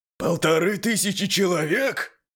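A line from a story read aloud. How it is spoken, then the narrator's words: Indignant yell. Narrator (Russian): Возмущенно заорал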